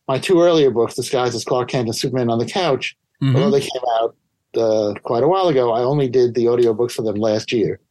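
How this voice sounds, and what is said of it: New York accent. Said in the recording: “I used to think I didn't have much of a New York accent, but people will compliment me ... especially your genuine New York accent. ... And so yes, I have one.”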